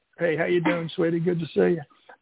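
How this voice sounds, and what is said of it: Dry-throated Arkansas accent impression. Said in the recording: “you got to do the Arkansas accent ... But then you got to get that dryness”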